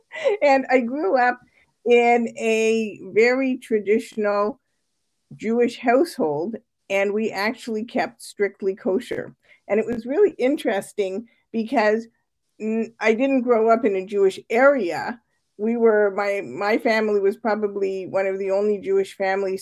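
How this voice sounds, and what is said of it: Slight Canadian accent. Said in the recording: “I actually grew up in Canada, so you might hear a little bit of the like out about house accent.”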